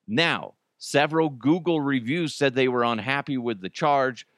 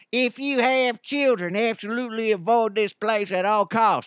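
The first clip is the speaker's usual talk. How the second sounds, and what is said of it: Reads aloud in a put-on accent. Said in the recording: “let's do it in an accent”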